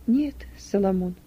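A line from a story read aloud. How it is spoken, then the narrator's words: Quiet reply. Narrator (Russian): ответила тихо Юдиф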